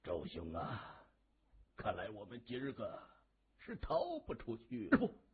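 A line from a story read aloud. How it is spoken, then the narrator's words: Long sigh, sorrowful. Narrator (Chinese): 黄景芳仰天长叹一声，对周天悲然地说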